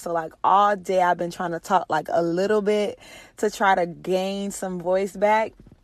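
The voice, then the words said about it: Hoarse, nearly lost voice. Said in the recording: “can hear it from my voice ... I don't even have a voice ... my voice was shot ... hopefully I don't sound too horrible”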